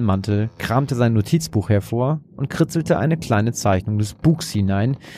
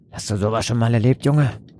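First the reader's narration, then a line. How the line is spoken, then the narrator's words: Sailor's grunt. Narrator (German): grunzte einer der Seemänner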